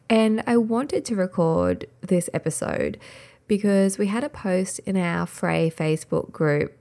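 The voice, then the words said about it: Voice not warmed up, early-morning. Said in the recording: “I'm recording this quite early in the morning, so my voice is not very warmed up”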